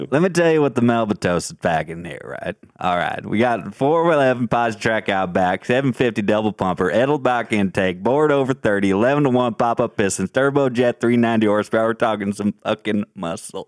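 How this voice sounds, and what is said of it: Matthew McConaughey impression. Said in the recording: “you have a great impression of McConaughey too”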